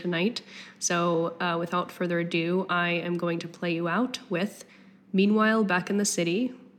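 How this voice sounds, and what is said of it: Strained, fading voice. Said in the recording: “I am losing my voice”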